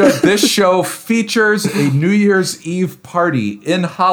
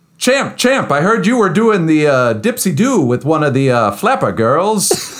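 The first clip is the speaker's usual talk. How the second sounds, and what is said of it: 1930s Hollywood-style put-on dialect. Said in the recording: “what you would say at a 30s Hollywood party”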